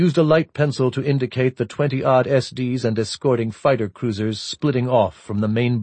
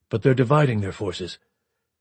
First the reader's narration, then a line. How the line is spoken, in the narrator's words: McKenna said quietly